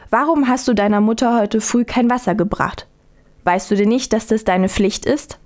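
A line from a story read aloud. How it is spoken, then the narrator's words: Stern mother. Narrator (German): sagte die Mutter streng zu ihrer Tochter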